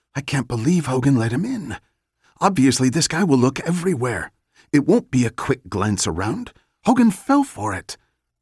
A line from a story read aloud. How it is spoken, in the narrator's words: Abby whispered